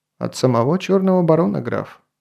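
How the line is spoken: Calm reply. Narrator (Russian): спокойно ответил Грон

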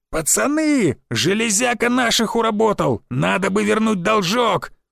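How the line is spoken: Brisk yelling. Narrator (Russian): Бойко заорал он

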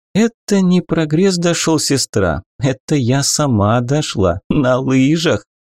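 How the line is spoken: Pleased laughter. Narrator (Russian): рассмеялась попаданка, довольная произведенным эффектом

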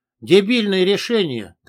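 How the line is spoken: Commanding voice. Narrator (Russian): командирским голосом произнес я

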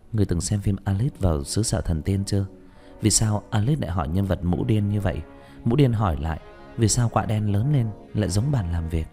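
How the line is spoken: Smiling. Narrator (Vietnamese): Nhuế Lãnh Ngọc mỉm cười

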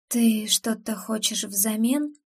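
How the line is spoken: Barely voiced whisper. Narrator (Russian): прошептала я одними губами

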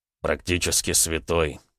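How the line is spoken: Snorting remark. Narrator (Russian): хмыкнул Роман

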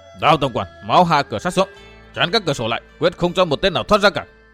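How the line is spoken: Shouting while running. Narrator (Vietnamese): Mộ vừa chạy vừa quát

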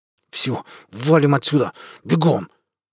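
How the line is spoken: Gritted teeth, breaking voice. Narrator (Russian): процедил сквозь зубы срывающимся голосом Вадим

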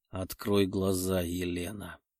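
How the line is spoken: Insistent, charmingly husky voice. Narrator (Russian): раздался настойчивый голос с чарующей хрипотцой

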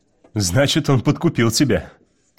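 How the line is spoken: Laughing. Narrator (Russian): рассмеялся Уит

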